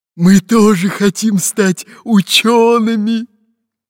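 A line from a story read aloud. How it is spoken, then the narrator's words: Hoarse wheeze. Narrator (Russian): просипел капитан Буль-Буль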